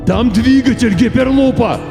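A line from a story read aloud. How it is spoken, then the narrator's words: Shouted. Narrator (Russian): крикнул мистер Пирсинг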